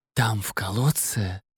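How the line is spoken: Whispered. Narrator (Russian): прошептал Эль

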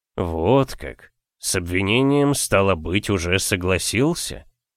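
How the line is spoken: Gloomy snort, youth. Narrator (Russian): Отрок мрачно хмыкнул

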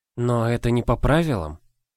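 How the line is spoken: Timid objection. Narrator (Russian): робко возразила Ида

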